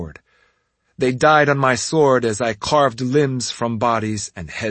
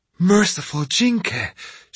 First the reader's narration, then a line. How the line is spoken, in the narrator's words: she whispered, sounding breathless